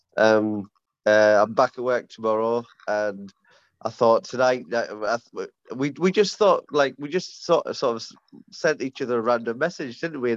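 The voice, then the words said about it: Congested, stuffed-up voice. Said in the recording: “I sound a bit stuffed up ... off work with COVID”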